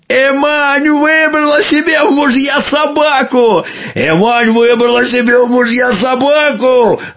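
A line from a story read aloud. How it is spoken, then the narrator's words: Young men shouting gloatingly. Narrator (Russian): Злорадно закричали юноши, напрасно ожидавшие от нее фруктов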